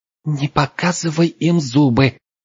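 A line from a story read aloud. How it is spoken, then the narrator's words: Hiss from behind. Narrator (Russian): зашипела за спиной Пенелопа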